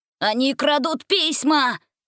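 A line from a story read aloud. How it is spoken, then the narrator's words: Shouted. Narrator (Russian): закричал эльф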